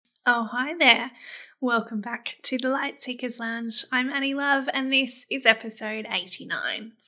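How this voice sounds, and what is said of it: Slightly scratchy voice. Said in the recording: “my voice is sounding a little bit scratchy at the moment ... my voice isn't quite back to normal as yet”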